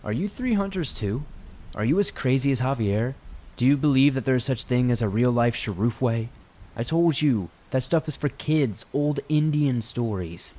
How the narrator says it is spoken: Mateo said, speaking unsteadily, likely because he must have been concussed

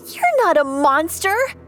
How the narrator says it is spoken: shrieked

